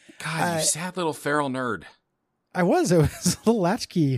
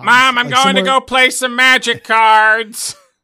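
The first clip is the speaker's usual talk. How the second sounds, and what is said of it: Imitates another person's voice. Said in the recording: “That's a good impersonation of young me.”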